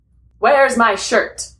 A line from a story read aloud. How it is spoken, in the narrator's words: He asked loudly